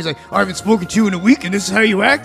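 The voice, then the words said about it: Impression of an angry friend. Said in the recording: “That impression”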